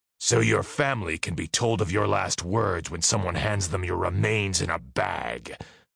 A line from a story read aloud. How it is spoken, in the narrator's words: the big man growled